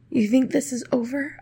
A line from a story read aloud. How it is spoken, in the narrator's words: whispered